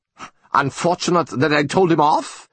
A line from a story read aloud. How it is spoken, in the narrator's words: said von Eagelfeld indignantly